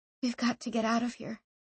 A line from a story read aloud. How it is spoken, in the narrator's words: she said wearily